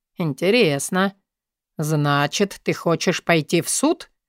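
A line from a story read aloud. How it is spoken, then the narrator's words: Calm question. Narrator (Russian): Интересуюсь спокойно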